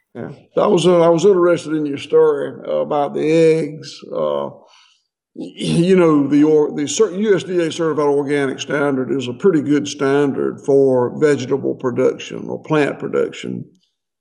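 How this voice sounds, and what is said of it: Southern US accent. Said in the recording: “I love your accent... I had Southern neighbors, but they didn't sound like you.”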